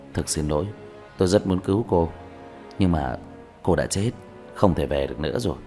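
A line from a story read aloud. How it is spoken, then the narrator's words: Sighing, gentle speech. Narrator (Vietnamese): Diệp Thiếu Dương thở dài, nhẹ nhàng nói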